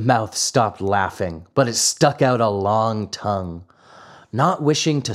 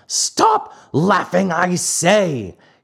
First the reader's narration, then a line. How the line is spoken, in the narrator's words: he roared in a voice of thunder